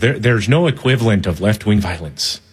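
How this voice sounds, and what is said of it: Poor put-on Irish accent. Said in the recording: “he's a little Irish guy ... That's a terrible accent.”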